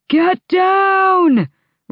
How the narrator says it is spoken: Rowan bellowed, over the screaming waters

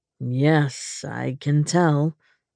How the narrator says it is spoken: he said dryly

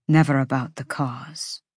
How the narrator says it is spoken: Cormac said quietly

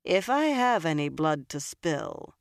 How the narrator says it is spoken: Nynaeve said dryly

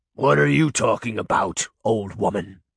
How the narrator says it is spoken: Beast growled

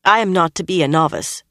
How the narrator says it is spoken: Nynaeve said in a firm voice, but a little too quickly

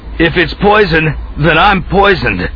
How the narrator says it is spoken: he shouted back, while his own teeth rattled and clattered

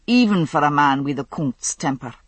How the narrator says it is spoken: he said dryly

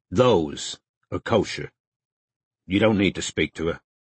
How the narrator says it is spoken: said Strike firmly

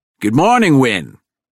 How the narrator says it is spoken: Ted called out to me

